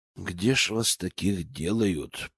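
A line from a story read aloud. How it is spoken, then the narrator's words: Muttering. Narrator (Russian): пробормотал я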